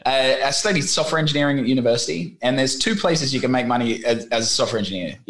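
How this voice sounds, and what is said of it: Australian accent. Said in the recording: “my funny accent that it doesn't sound too Vietnamese ... Originally from the land of kangaroos”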